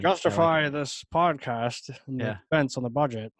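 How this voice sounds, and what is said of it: Imitated stern executive voice. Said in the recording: “Good impression.”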